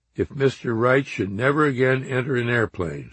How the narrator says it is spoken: Squire said

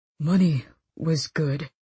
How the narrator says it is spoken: he said thickly

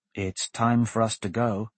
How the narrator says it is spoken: Lyra said softly

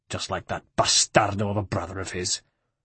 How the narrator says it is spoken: snarled Francesco

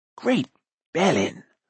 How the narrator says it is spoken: whispered Fluda

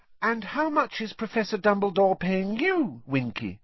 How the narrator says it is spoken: Hermione asked kindly

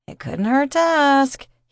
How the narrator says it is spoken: he chuckled

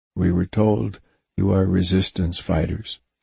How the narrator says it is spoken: he said in his deep voice

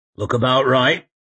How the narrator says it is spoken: he grunted to Crying Rock

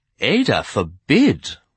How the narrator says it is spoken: Shade exclaimed fervently

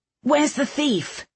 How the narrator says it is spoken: the dark-haired one shouted

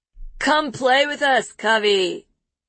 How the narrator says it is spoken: he says, too loudly

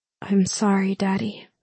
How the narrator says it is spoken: whispered

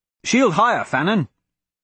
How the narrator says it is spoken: the taller figure shouted

